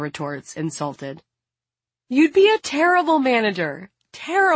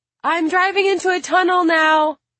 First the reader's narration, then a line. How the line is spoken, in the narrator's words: Maya shouts